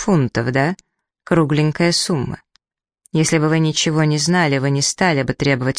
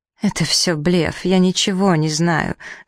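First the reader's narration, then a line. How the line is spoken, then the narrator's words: Pained breathy voice. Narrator (Russian): с болью в голосе выдохнула госпожа Джашер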